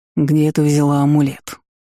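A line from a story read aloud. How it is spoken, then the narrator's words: Icy question. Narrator (Russian): ледяным тоном спросил Ивард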